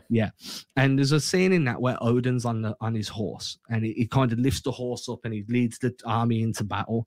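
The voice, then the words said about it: Speaks with a noticeable accent. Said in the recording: “I can never say my accent doesn't let it come through properly”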